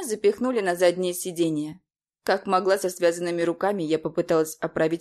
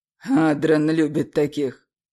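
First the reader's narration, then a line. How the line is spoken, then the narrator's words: Snorting local man. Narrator (Russian): хмыкнул местный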